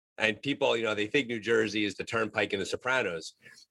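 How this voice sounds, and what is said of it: Regional American accent. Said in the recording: “As our listeners can tell by my accent and by your accent, we're not exactly from the same part of the country”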